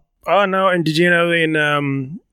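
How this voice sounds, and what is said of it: Brief put-on Australian accent. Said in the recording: “You're doing an Australian accent for a second.”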